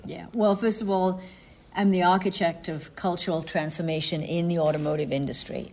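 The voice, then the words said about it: Welsh accent. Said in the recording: “your Welsh accent”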